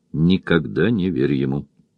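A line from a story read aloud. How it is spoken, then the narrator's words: Quiet, furious. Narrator (Russian): сказала она тихо и яростно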